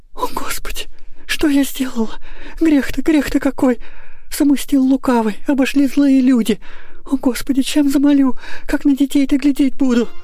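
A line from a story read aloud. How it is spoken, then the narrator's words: Choked with sobs. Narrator (Russian): Рыдания душили ее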